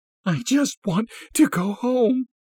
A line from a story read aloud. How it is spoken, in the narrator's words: she sobbed